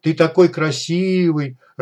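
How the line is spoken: Sobbing. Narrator (Russian): рыдал сталкер

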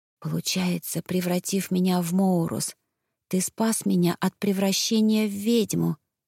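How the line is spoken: Whispered. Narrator (Russian): шепнула я

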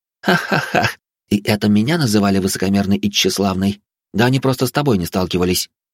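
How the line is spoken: Laughter then thoughtful. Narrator (Russian): Отсмеявшись, успокоившись, Фатия задумчиво сказала

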